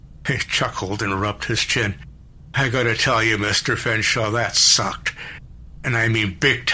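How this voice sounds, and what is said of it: Usual voice. Nothing is said of it.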